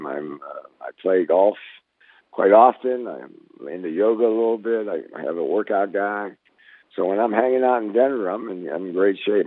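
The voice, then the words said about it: Slightly raspy voice. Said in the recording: “my voice is always going to be a little raspy and sore when I talk a lot because of my cancer, my head and neck cancer”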